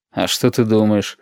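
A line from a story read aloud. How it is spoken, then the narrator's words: Skeptical snort. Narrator (Russian): хмыкнул Валентин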